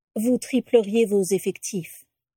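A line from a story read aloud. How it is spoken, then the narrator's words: Neutral declaration. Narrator (French): déclara Lucius d'une voix neutre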